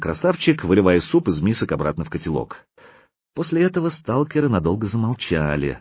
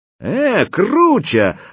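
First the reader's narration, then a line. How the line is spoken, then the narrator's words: Joyful shout. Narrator (Russian): радостно закричал сталкер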